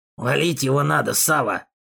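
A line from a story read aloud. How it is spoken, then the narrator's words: Quiet secretive mutter. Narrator (Russian): тихо пробормотал второй, думая, что я не слышу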